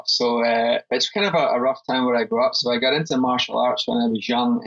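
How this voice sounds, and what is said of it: Scottish accent. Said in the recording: “you're not from Lower Alabama with that accent ... life growing up as ... in Scotland”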